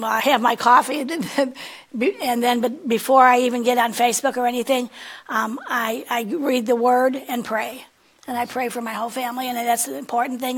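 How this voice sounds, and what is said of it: Hoarse voice. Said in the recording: “my voice is kind of hoarse.”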